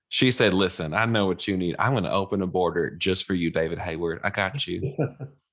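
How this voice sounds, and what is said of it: Put-on Southern US accent. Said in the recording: “love that accent. My wife's from Alabama”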